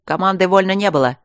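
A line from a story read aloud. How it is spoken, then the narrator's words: Yelling. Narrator (Russian): заорал майор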